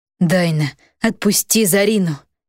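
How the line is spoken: Tired lifeless voice. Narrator (Russian): усталым безжизненным голосом произнес голубоглазый

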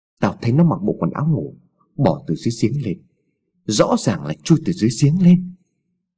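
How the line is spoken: Trembling, frightened. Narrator (Vietnamese): Hùng nói bằng giọng run rẩy

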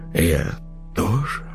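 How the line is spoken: Sigh. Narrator (Russian): Кристина вздохнула

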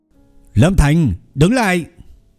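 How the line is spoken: Arrogant shout. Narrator (Vietnamese): một tên chó săn trong đó thập phần kiêu ngạo hét lên một tiếng

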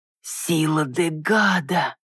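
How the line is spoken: Uncle exhales. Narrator (Russian): выдохнул дядюшка

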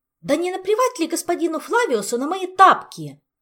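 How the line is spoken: Loud yelling. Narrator (Russian): На весь дворец заорала Ольга

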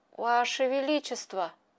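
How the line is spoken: Trembling voice. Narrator (Russian): дрожащим голосом сказал он

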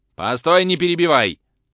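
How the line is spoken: Shout. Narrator (Russian): закричал Тарантьев

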